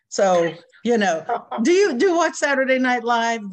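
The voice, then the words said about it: Exaggerated pretentious affected voice. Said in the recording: “in my most pretentious voice”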